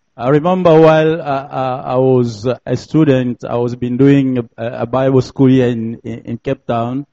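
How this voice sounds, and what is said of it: French accent. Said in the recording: “sorry for my French accent... I'm a French speaking”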